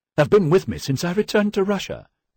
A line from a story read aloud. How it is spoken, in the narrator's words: blurted out